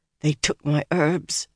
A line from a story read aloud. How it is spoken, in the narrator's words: Nynaeve muttered fiercely, her voice trembling